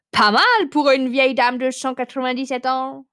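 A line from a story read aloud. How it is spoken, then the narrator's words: Amused exclamation. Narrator (French): s'exclama-t-elle, un sourire en coin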